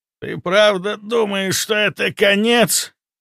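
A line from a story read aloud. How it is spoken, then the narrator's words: Hoarse rasp. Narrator (Russian): прохрипел он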